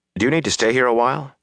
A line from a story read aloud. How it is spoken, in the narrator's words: Rand asked anxiously